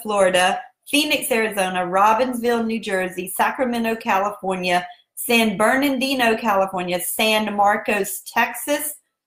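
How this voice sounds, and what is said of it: Southern American accent. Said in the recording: “that's just my southern accent. And that's how we roll down here in South Carolina”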